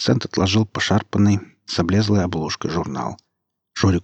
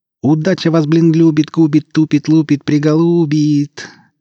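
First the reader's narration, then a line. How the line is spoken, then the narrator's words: Drawn-out singsong. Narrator (Russian): тянул Перцент нараспев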